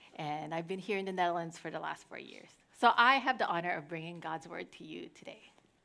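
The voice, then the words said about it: American accent. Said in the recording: “I grew up in the U.S. You could hear the accent.”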